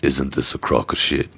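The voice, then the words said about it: Raspy serious British man voice. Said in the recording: “I've been doing Serious British Man ... I've just been raspy and my throat's hell since I've been so sick”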